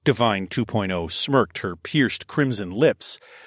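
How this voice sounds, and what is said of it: Usual voice. Nothing is said of it.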